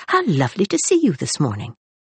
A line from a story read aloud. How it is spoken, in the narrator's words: exclaimed Rosalind